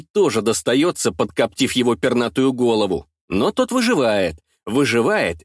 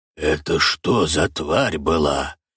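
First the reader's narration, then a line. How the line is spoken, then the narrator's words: Tense whisper. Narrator (Russian): Шепотом интересуется Буги, с напряжением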